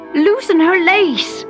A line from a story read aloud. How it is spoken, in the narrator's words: the dwarves shouted in panic